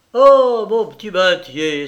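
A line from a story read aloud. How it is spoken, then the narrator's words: Exclaiming. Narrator (French): s'exclama-t-il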